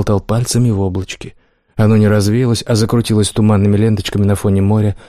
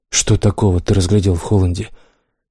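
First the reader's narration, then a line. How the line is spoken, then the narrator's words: Sighing. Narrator (Russian): Лукард вздохнул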